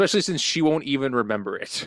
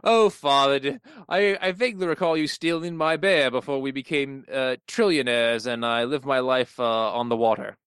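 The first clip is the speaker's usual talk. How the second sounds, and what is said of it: Mid-Atlantic rich-person accent. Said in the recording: “Atlantic accent because ... rich ... that accent just starts on you”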